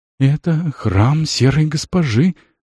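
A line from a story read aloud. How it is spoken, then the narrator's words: Teenager breathing out. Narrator (Russian): выдохнул подросток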